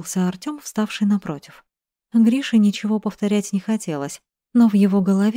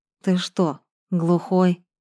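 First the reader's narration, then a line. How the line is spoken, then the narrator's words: Through gritted teeth. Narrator (Russian): сквозь зубы заявил Гриша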